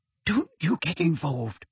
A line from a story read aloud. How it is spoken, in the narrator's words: Hermione whispered urgently to him